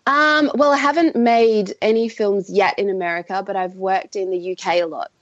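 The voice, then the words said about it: Australian accent. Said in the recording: “from the accent, you're from Australia”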